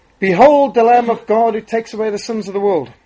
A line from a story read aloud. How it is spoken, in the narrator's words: Testing the acoustics in the vast agricultural hall, Spurgeon shouted